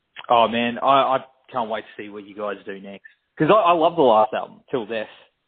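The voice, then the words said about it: Australian accent. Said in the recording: “It's my Australian. ... It sounds horrible coming out with my accent.”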